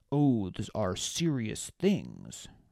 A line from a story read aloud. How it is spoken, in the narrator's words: Rox growled